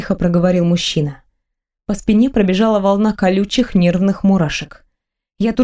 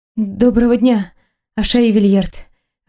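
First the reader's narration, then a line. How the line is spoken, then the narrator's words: Strained, dry-throated. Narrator (Russian): выдавила я сквозь пересохшее горло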